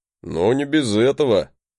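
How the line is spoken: Snorting. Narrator (Russian): хмыкнул он

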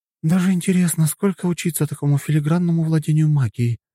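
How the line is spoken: Sighing. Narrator (Russian): вздохнула рядом сидящая Виолетта

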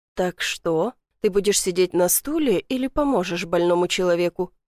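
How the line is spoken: Soft laughing. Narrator (Russian): Смеюсь тихо

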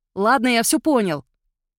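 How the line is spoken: Said loudly. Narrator (Russian): громко сказал Мирон

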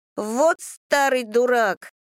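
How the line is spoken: Loud declaration. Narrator (Russian): громко заявляет Никита

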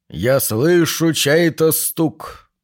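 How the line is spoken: Trained masculine voice. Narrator (Russian): процитировал человек хорошо поставленным и очень мужественным голосом

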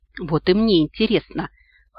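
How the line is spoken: Snorted. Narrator (Russian): хмыкнул Ахура Мариэль

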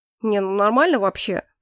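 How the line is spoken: Grumbling. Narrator (Russian): проворчал Эрик, ошалело

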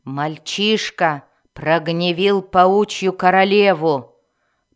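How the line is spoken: Furious weary growl. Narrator (Russian): прорычала Мелис, явно разъяренная и утомленная сарказмом Зака

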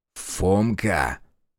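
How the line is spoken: Quiet call. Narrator (Russian): тихонько окликнул Решетов

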